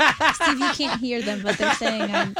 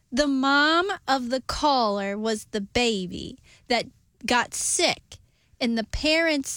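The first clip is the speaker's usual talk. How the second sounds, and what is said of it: Odd exaggerated Midwestern accent. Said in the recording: “what accent are you doing now? ... speaking weird ... why are you talking like that? ... like a Midwestern Sebastian Maniscalco”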